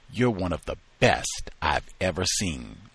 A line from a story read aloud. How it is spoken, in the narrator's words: said